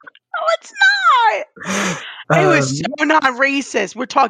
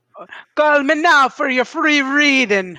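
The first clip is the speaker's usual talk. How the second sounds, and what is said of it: Impression of Miss Cleo. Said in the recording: “I did a great impression ... Miss Cleo”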